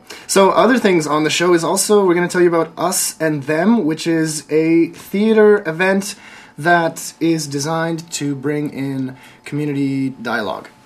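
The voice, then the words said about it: Rough, strained voice. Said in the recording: “my voice is kind of screwed up still today. I had strep throat 2 weeks ago.”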